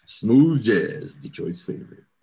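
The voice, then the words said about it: Smooth jazz radio DJ voice. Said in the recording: “I'm about to put on my smooth jazz voice.”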